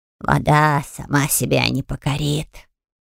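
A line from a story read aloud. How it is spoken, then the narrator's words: Grumbling cook. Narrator (Russian): буркнул повар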